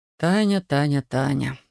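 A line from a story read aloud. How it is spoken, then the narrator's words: Sighing. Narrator (Russian): вздохнул Александр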